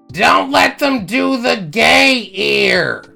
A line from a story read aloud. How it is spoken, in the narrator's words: my grandma yelled out